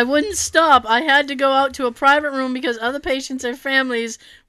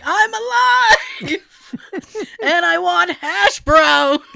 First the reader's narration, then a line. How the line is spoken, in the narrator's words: I just started yelling